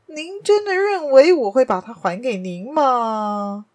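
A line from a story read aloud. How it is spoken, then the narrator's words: Laughing. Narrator (Chinese): 亚森·罗平笑道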